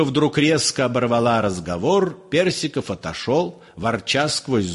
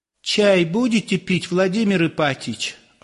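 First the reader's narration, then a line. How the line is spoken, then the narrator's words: Timid question. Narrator (Russian): Робко осведомилась Марья Степановна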